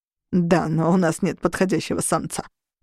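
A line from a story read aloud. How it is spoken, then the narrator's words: Wry snort. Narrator (Russian): хмыкнул Орру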